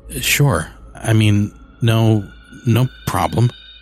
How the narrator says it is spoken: stammered

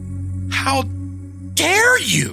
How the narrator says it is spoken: Donna shouted fiercely

